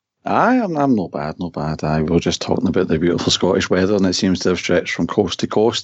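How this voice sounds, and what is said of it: Scottish-accented speaking voice. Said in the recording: “I do have my own rubbish accent and some lovely Scottish rain”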